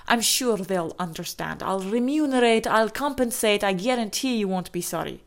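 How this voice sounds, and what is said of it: Unidentified put-on accent. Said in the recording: “I don't even know what accent that is, actually”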